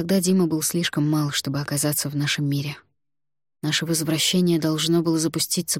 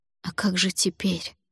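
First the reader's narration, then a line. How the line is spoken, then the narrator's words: Whisper. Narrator (Russian): прошептала я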